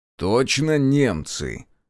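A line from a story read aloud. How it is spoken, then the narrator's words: Doubtful drawl. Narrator (Russian): недоверчиво протянул Решетов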